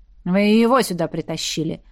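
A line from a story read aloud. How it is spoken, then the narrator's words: Grumbling. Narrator (Russian): проворчала она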